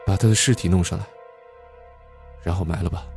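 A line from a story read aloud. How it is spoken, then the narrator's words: Sighing. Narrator (Chinese): 李隐叹了口气，说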